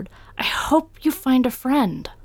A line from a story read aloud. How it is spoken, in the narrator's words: Doll faltered